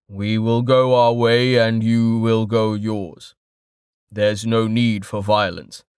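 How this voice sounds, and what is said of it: Deep, calm male character voice. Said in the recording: “the man with the deep voice ... said the deep-voiced man calmly”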